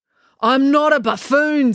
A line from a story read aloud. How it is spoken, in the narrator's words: snapped Constable Pike